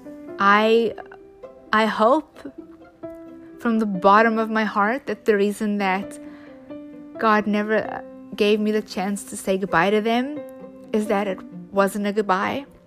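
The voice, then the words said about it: Emotional, choked-up voice with pauses. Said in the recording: “I'm getting a little emotional”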